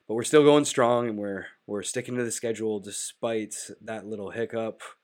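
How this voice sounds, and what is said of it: Nasal, congested voice. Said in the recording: “I sound a little nasally more than I typically would sound, like I'm kind of dying ... still getting over this plague sickness ... this extended cold”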